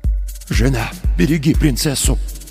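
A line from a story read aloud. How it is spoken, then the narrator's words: Father whispering. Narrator (Russian): прошептал отец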